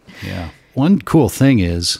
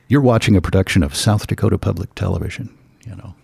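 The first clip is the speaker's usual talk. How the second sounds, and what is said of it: Polished announcer radio voice. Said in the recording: “So it's radio voice.”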